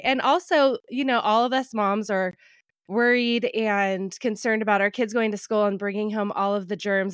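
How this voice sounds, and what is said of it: Voice affected by a cold. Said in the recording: “I don't know if you can hear my voice. I have a cold.”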